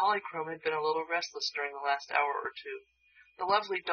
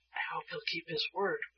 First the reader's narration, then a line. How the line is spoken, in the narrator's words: whispered Betsy to Shaggy